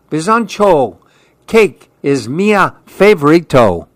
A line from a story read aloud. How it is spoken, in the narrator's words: Andy yelled